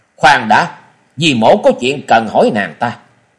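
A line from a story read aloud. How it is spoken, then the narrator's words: Sharp ringing shout. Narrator (Vietnamese): một tiếng quát vang lên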